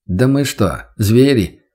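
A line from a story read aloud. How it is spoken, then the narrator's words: Wry snort. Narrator (Russian): хмыкнул Демьянов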